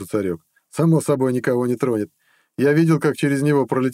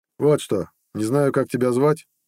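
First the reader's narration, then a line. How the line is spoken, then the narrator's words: Tired speech. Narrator (Russian): устало сказал Нед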